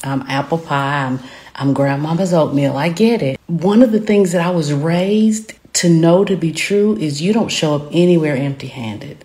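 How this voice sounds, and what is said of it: Southern American accent. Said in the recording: “I am Southern, as you can tell by my accent.”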